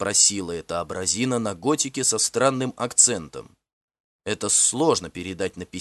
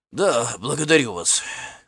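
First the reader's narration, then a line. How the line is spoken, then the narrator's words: Hoarse. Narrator (Russian): хрипло ответил я через секунду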